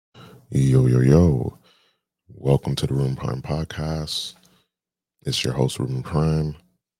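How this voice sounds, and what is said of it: Deeper than usual voice. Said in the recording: “my voice is deeper than normal is because I just woke up”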